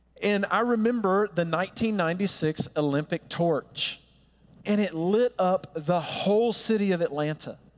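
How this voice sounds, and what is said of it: Southern US accent from Georgia. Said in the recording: “if you're wondering where the accent is from, I grew up not far from Atlanta, Georgia.”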